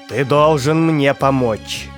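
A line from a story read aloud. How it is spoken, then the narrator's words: Commanding tone. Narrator (Russian): повелительным тоном произнес грязный хвост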